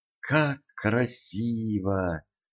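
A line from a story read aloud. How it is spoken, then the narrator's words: Admiring whisper. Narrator (Russian): восхищенно прошептала принцесса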